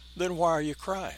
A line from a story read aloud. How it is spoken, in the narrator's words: She spoke, and her voice was like smooth velvet